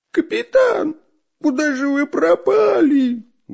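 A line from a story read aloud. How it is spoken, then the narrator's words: Loud shouting. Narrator (Russian): громко кричал шпион Дырка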